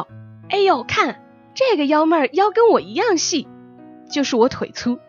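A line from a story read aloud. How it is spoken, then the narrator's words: Shouting. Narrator (Chinese): 经常大叫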